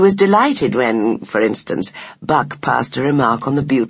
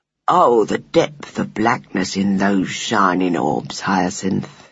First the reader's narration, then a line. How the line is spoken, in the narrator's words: he murmured